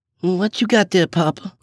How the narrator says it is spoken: I asked drowsily

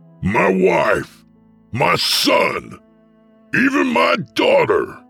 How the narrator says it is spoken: I screamed at him in Viskin's voice

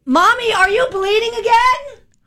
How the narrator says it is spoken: my daughter loudly asked

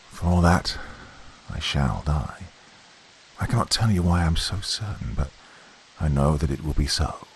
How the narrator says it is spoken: he answered in a low voice

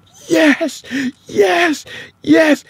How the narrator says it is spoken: she's breathing like she's coming up from underwater, and she starts yelling

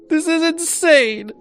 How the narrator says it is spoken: I cried

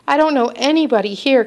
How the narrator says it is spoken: cried Froggy

